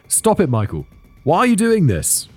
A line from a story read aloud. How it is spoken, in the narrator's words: she called out to him